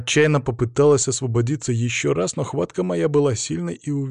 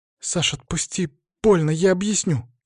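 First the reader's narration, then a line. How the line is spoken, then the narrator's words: Frightened tearful whisper. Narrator (Russian): испуганно зашептала она, почти плача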